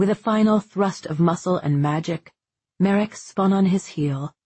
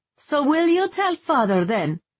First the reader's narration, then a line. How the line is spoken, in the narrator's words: Vivia shouted